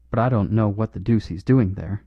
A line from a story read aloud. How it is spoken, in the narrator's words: growled Harris